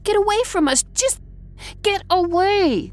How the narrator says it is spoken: she shrieked

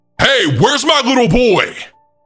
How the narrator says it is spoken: Someone had yelled in a scary voice

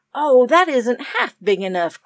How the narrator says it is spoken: cried Kenneth scornfully

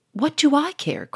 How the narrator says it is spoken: cried Sonia

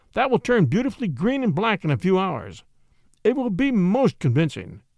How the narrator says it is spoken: cooed

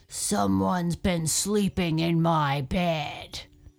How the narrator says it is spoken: he grumbled

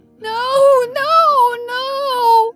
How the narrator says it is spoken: wailed

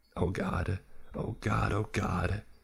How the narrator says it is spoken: he whimpered

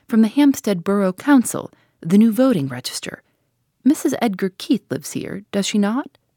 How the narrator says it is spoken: he said briskly and cheerfully

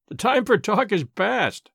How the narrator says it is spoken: he cried

